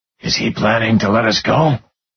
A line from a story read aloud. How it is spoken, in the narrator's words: Curry whispered